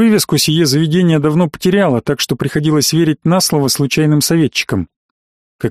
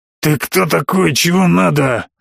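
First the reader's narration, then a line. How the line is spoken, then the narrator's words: Growling, intimidating. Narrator (Russian): зарычал на меня вышибала, явно надеясь испугать залетного мажора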